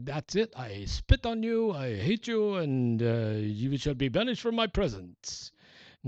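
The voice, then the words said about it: Put-on French accent. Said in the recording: “That's God with a French accent.”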